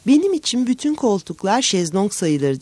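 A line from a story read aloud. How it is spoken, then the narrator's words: Laughing. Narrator (Turkish): diye güldü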